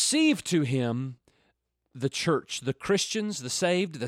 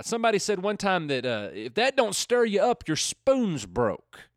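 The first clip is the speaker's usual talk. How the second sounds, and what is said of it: Put-on Southern American accent. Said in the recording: “I said that with my best Southern accent.”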